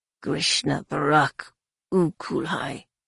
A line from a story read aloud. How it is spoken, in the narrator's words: a voice snarled in her mind